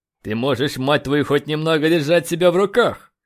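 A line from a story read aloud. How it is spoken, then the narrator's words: Angry bark. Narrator (Russian): рявкнул он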